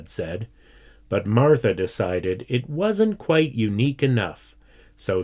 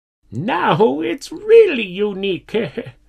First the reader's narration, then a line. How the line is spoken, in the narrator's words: laughed